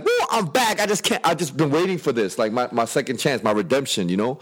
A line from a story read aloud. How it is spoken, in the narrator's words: like he's just screaming